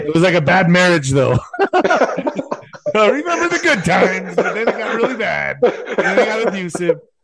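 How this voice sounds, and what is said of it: Imitates another person's voice. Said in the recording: “that's a good Trump impression. It was very good. Very good.”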